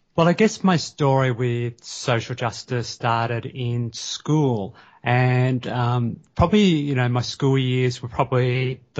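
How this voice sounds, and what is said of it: Australian accent. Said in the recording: “I love that Australian accent that comes with that.”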